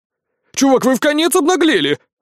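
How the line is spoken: Loud laughter. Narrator (Russian): расхохотался Ян

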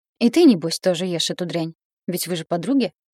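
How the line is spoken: Indignant woman. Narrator (Russian): возмущённо добавила Дашкина мать

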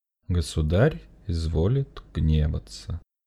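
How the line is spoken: Flat colorless voice. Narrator (Russian): бесцветным голосом сказал Сергей Александрович

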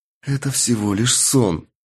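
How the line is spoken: Whispered, repeated like mantra. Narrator (Russian): шептала она, повторяя как мантру

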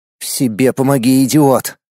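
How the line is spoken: Breathless mutter. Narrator (Russian): себе под нос произнес наш резко вспотевший и запыхавшийся герой

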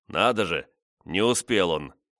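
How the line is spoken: Snorting foreman. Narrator (Russian): Хмыкнув, десятник

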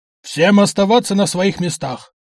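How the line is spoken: Policeman barking. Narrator (Russian): рявкнул один из полицейских

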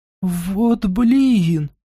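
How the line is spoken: Exhaled with slight whimper. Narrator (Russian): с легким скулежом выдохнула Ласка

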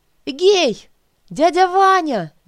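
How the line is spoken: Shouting, jumping. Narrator (Russian): закричала я, подпрыгивая и бросаясь на стенку

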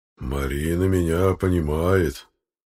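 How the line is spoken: Drawling, almost sung bass. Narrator (Russian): протянул, почти пропел басом Владимир Вениаминович

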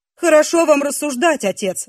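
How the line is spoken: Young man's exclamation. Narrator (Russian): воскликнул юноша

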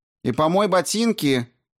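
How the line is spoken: Shouted from the hallway. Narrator (Russian): крикнула Ванесса из коридора

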